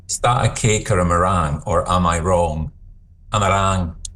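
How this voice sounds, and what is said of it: Put-on Scottish accent. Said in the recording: “Think of it in a Scottish accent.”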